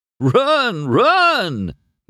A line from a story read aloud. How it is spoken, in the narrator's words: Mater hollered, laughing his bumper off